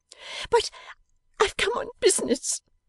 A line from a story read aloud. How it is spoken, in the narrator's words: said Georgiana, sobbing